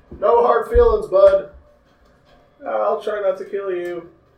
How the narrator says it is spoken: Nasir yells at Junior

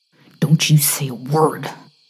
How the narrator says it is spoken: he hissed

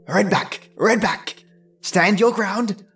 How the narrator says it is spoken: called out the deer

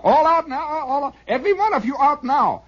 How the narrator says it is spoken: he suddenly were to shout

